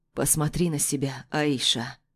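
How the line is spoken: Hoarse voice. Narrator (Russian): произносит он, и его хриплый голос

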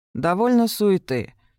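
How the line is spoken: Bored tone. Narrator (Russian): сказал Венс скучающим тоном

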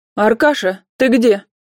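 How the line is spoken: Loud shout. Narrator (Russian): громко крикнула Вера Николаевна

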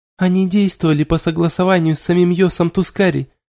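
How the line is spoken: Blurted out joyfully. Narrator (Russian): выпалила Сильвия и радостно улыбнулась

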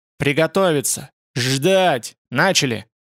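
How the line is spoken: Loud terrible roar. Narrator (Russian): Он взревел громко и страшно

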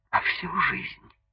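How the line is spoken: Whispered addition. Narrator (Russian): Добавила шепотом

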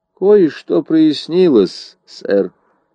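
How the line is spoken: Flat, colorless voice. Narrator (Russian): ответил Ламонт бесцветным голосом

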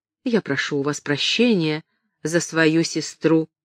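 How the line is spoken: Quiet. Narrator (Russian): тихо сказала

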